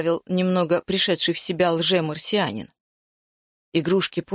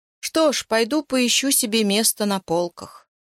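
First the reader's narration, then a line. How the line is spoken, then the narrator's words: Glum. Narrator (Russian): уныло сказал бывший марсианин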